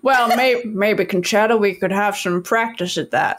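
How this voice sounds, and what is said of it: Imitates another person's voice. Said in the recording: “my Bill Clinton impression”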